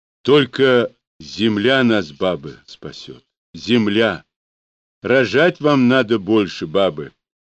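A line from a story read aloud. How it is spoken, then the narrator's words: Loud laughing speech. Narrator (Russian): Смеясь от того неожиданно молодей, сказал Захар громко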